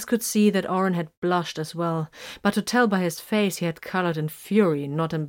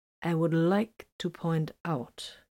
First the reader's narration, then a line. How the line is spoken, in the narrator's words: Vox said slowly and distinctly